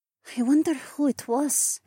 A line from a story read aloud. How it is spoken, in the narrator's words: Adhara said quietly